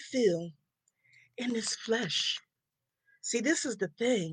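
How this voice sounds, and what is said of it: Usual voice. Nothing is said of it.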